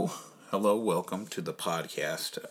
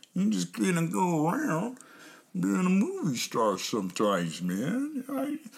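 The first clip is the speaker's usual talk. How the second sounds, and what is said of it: Imitates another person's voice. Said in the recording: “your attention to a impression that I was practicing”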